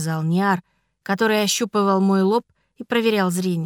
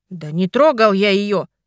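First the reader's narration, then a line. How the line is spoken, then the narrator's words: Angry reply. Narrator (Russian): зло ответил Арнар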